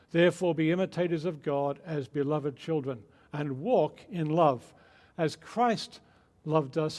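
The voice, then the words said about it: Mixed Australian, English and American accent. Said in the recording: “my odd accent ... it's my Australian birth and upbringing, and then living over 20 years in England, and now living many years in America, including 12 years in Texas. So it's a kind of confused accent”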